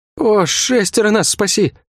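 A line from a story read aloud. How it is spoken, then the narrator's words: Groaning. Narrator (Russian): Не сказал, а простонал гвардеец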